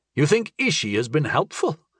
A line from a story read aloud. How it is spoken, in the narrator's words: I asked, chuckling doubtfully